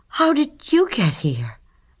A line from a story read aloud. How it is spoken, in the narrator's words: cried Stuart